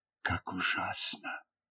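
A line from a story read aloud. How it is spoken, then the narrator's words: Whispered. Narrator (Russian): прошептала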